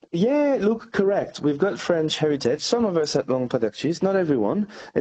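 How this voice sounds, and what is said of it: French accent. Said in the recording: “as we can tell by your accent. You've got French origins”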